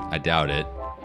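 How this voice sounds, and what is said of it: Sarcastic delivery. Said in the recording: “that was said with supreme sarcasm”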